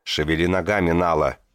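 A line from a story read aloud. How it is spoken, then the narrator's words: Barked inner voice. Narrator (Russian): рявкнул голос Варцена у него в голове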